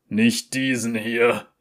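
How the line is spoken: Laughing a bit too loudly. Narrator (German): lachte Graves etwas zu laut

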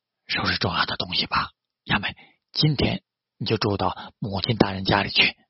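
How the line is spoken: Sighing man. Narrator (Chinese): 武田孝直叹了一口气，对小森雅美说道

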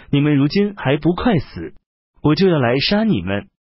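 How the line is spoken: Stern rebuke. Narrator (Chinese): 敏贡厉声斥责张让等人，而且说

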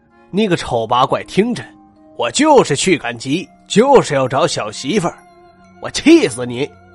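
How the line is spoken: Angry cursing. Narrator (Chinese): 男子气哼哼的说着，叫骂

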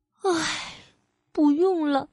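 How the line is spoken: Sighing. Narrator (Chinese): 卡米拉叹了一口气

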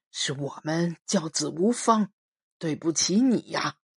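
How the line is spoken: Resolute, grave. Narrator (Chinese): 一咬牙，把最严重的一句话说了出来

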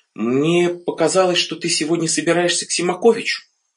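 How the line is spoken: Uncertain wife. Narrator (Russian): Жена помолчав, сказала неуверенно

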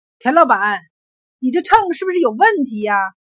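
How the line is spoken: Angry. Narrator (Chinese): 一个人怒气冲冲的开口就道

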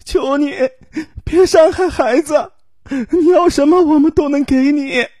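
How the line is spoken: Heartbroken wailing cry. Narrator (Chinese): 他撕心裂肺的哭喊着

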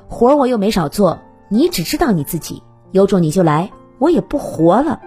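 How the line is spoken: Defiant shouting. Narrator (Chinese): 妻子不甘示弱的嚷道

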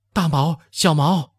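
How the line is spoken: Frightened shouting while running. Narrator (Chinese): 也似乎有了恐怖感，一溜小跑的喊着

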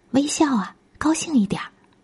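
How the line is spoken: Soft, quiet reminder. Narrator (Chinese): 卢小姐小声叮咛

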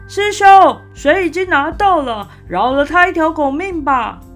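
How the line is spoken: Shouting. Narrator (Chinese): 沙僧对着悟空喊

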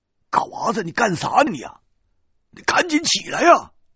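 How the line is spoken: Big man shouting. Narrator (Chinese): 大个子对嘎娃喊

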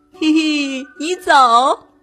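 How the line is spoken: Laughing reply. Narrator (Chinese): 艾玛也笑着回答

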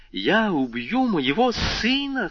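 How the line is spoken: Frantic mother's cry. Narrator (Russian): вскрикнула эта безумная мать

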